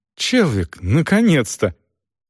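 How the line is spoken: Overwhelmed joyful exclamation. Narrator (Russian): Селдон, потрясенный до глубины души, в порыве безотчетной радости воскликнул

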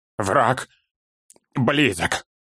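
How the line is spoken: Strained, barely audible. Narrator (Russian): Едва выдавил он

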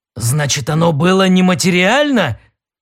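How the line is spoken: Exclaimed. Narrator (Russian): воскликнул Дрил

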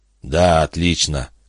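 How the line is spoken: Hoarse. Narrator (Russian): хрипло сказал Гард

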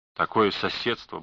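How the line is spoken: Muttering. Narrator (Russian): бормотал он

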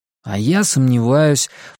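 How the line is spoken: Grumbled. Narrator (Russian): пробурчал Макс

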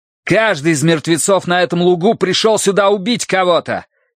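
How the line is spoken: Shouting, losing patience. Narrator (Russian): не выдержав, закричал Тай

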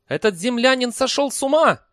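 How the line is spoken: Shouted. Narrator (Russian): закричал Либич

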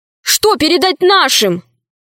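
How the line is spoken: Shouted. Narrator (Russian): крикнул Удалов

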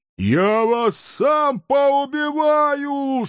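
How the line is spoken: Anguished, strained yell. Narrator (Russian): с надрывом заорал Трувор, как барсук, заставший свою супругу в постели с кроликом

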